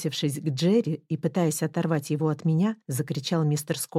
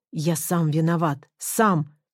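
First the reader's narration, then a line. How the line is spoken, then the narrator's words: Shouting in pain. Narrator (Russian): кричал, скривившись от боли, мистер Скотт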